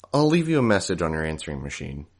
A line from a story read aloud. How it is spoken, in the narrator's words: I said